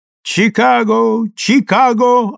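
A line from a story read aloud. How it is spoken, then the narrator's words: Blaring gramophone. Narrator (Russian): орал патефон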